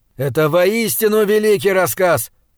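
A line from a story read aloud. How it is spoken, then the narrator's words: Shouted after someone. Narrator (Russian): прокричал Говард мне вслед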